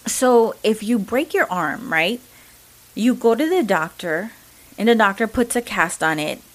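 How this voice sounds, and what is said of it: English with a Mexican accent. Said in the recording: “my Mexican accent”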